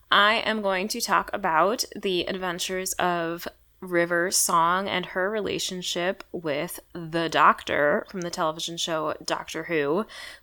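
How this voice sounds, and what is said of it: Hoarse, fading voice. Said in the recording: “I am rapidly losing my voice.”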